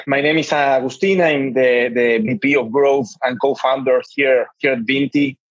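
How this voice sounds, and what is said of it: Argentinian-accented English. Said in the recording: “I'm Argentinian, and generally Argentinians tend to speak quite fast.”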